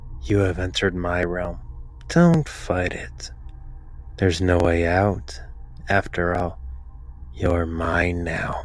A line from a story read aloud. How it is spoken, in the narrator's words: In a calm voice, says